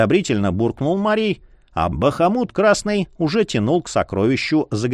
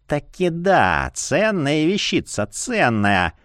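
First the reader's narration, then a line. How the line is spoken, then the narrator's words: Cooing, dealer. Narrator (Russian): ворковал делец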